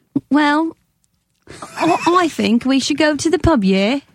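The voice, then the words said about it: Put-on Cockney British accent. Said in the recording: “British accent ... That's Cockney ... It's not the worst I've ever heard ... You sound like a speech impediment”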